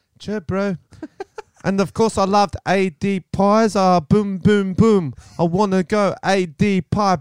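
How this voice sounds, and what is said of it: Put-on Kiwi accent. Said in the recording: “Let's do accents ... Should I go Kiwi? ... Kiwi, ... Kiwi.”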